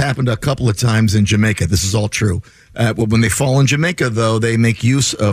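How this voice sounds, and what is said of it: Usual voice. Nothing is said of it.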